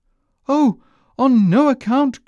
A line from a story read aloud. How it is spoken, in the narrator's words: cried little Hans